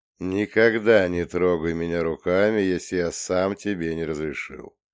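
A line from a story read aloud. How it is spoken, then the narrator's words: Calm statement, mantis. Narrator (Russian): спокойно заявил богомол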